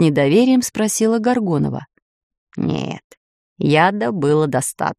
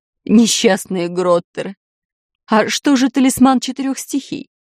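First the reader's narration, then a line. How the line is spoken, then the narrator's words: Sobbing. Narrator (Russian): всхлипнула Медузия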